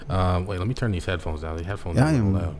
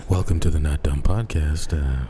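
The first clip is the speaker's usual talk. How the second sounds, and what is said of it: Deep, smooth public-radio announcer voice. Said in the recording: “It's like deep in your throat when the mic picks it up ... that's my NPR voice, man. That's my NPR voice.”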